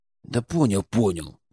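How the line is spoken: Displeased grumble. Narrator (Russian): недовольно буркнул он

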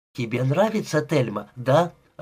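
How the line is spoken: Joyful question. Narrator (Russian): радостно спросила

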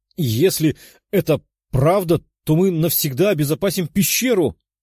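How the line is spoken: Joyful exclamation. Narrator (Russian): воскликнула радостная циклопа

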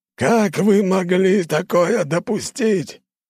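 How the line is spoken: Yelling loudly. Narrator (Russian): В который раз орал он на весь свой штаб

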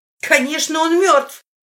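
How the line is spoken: Shouted. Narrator (Russian): крикнула Зои

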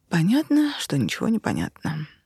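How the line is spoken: Sighing. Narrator (Russian): вздохнула я

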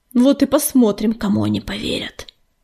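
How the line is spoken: Angry hiss. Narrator (Russian): злобно прошипел Огнезвезд

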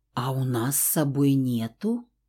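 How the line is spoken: Quiet, dawning alarm. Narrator (Russian): Тихонько проговорила я, только сейчас начиная понимать, как сильно мы влипли

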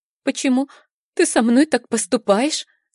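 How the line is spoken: Sobbing question. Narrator (Russian): спрашивает, всхлипывая

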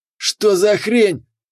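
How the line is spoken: Yelling. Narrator (Russian): орал главарь

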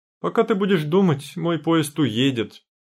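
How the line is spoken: Moaning. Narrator (Russian): стонала я

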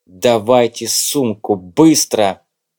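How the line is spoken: Urgent hiss. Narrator (Russian): прошипел Выхин

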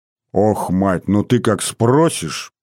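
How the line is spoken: Displeased grumble, father. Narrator (Russian): недовольно пробурчал отец

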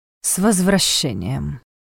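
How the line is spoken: Disappointed snort. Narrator (Russian): с оттенком разочарования хмыкнул Страх

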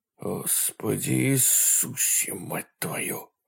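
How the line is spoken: Whisper. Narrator (Russian): прошептал Мануэль

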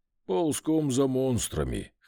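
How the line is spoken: Dog's snort. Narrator (Russian): хмыкнул пес

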